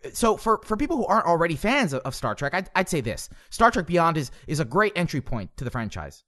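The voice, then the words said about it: Imitates another person's voice. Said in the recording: “I'm doing a pretty decent impression.”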